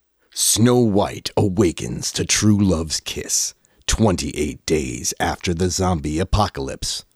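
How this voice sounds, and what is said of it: Dramatic movie trailer narrator voice. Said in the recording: “Let me get my movie trailer voice on.”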